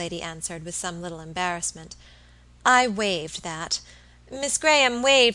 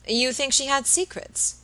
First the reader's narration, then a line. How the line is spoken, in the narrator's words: Robert asked rather eagerly